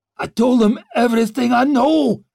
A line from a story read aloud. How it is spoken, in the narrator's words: croaked out